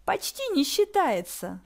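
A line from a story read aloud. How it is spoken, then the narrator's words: Sugary voice. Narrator (Russian): сладким голосом вернула Захара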